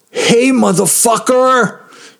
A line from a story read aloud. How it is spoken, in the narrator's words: screamed